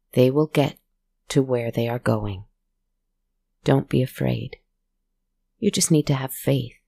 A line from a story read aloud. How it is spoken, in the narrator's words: she just gently reassured him